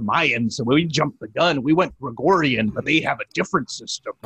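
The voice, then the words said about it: Imitates another person's voice. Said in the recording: “I turned into Jesse Ventura there a little bit ... That impression made me lightheaded.”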